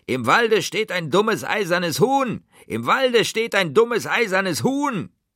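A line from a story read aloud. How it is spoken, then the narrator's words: Contemptuous shrieking. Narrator (German): Sie drehten sich voller Verachtung um, flogen wieder in die Luft und schrien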